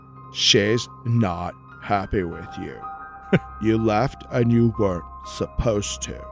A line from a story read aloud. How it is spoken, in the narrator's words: very solemnly said